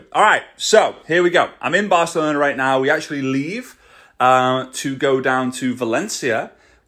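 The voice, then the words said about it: Scouse (Liverpool) English accent. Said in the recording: “my Scouse accent”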